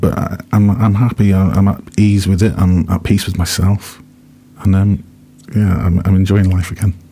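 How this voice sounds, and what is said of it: Shaky, emotional voice. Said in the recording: “my voice is a bit shaky today, and I'm a bit emotional,”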